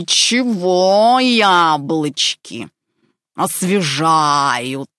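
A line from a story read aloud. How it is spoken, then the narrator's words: Roared. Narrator (Russian): Проревел он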